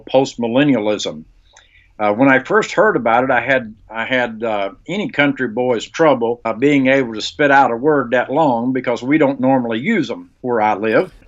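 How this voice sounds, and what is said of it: Rustic country accent. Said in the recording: “sounds rather rustic ... Don't be fooled by the accent.”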